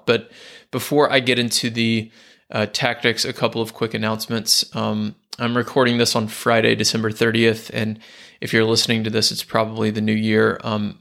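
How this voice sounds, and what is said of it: Slightly hoarse, worn voice. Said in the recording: “My voice is a little bit gone because I've had a bit of a head cold”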